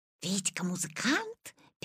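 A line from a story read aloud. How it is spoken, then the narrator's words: Whispering classmates. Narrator (Russian): перешептывались Витины одноклассники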